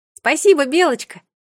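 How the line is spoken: Calling out after someone. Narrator (Russian): крикнула ей вслед Мира

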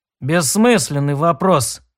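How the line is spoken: Gloomy warrior. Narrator (Russian): ответил воин мрачно

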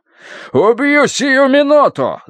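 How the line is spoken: Shrieking scream. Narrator (Russian): завопил он на грани визга

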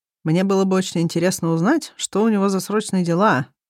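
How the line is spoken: Gloomy comment. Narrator (Russian): мрачно комментирую я

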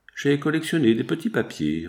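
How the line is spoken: Laughing reply. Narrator (French): répondit Ovid en riant

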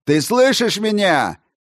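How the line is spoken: Near shout. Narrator (Russian): почти крикнул Чучел

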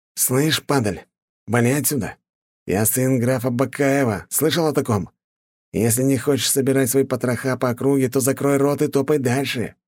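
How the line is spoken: Hiss. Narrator (Russian): прошипел парень

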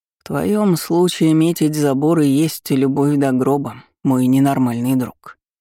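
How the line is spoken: Grumbling. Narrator (Russian): проворчал Калеб

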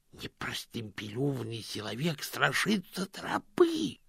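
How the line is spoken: Attacker hissing. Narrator (Russian): прошипел один из нападающих

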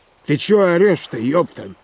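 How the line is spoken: Grumbling mutter. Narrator (Russian): пробурчал он

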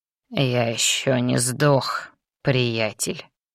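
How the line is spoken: Hoarse wheeze. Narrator (Russian): прохрипел Раум

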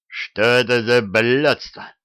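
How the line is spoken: Growled. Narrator (Russian): рыкнул комбриг

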